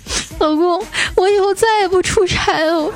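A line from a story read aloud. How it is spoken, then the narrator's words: Crying. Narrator (Chinese): 一边哭 说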